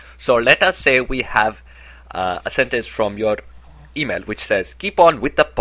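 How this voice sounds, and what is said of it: Usual voice. Nothing is said of it.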